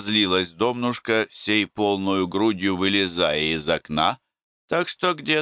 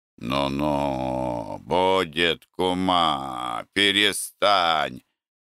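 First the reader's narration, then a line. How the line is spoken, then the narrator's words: Grumbling. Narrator (Russian): ворчал Антип, насасывая трубочку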